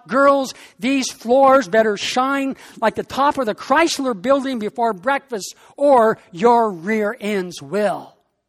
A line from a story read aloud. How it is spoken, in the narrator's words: she likes to shout